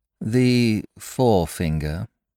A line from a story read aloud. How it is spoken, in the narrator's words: she explained calmly